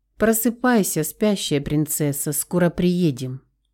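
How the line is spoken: Quiet laugh. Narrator (Russian): Тихо засмеялся он

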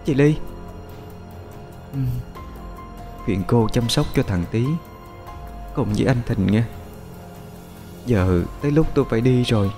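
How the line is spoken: Soft call. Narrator (Vietnamese): Cô khẽ gọi

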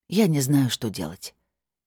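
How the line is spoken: Sincere, heavy sigh. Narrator (Russian): честно сказала я и тяжко вздохнула

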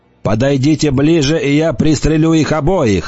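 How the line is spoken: Shouted. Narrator (Russian): закричал Голан

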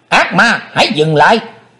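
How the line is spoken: Shouted. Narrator (Vietnamese): tiếng quát

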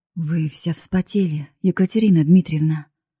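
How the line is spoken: Worried voice. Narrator (Russian): говорит Кирилл Борисович озабоченным голосом

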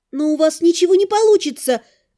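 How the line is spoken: Hopeful exclamation. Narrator (Russian): воскликнула я, всей душой цепляясь за надежду

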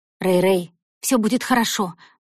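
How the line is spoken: Trembling voice. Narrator (Russian): дрожащим голосом сказала Зои

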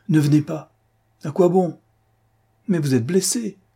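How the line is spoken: Exclaimed. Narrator (French): s'exclama-t-elle

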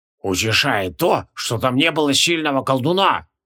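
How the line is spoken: Creaky voice. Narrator (Russian): проскрипел Квилион

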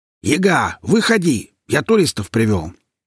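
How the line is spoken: Very loud bark. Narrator (Russian): рявкнул леший, да так громко

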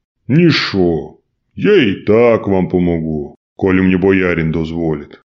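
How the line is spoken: Good-natured booming voice. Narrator (Russian): добродушно прогудел богатырь

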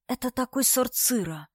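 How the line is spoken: Quiet speech. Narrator (Russian): сказала Дарья тихо

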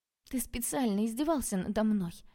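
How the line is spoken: Tragic whisper. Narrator (Russian): трагичным тоном прошептала я

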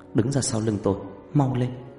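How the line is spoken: Soft, urgent. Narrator (Vietnamese): Loan khẽ nói

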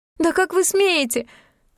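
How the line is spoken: Breathless exhale. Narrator (Russian): выдохнула Вельмина

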